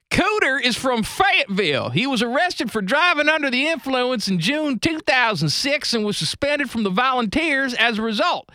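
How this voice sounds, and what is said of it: Put-on Southern US accent. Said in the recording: “I'm just going to read you his personal life section from Wikipedia in the Southern accent.”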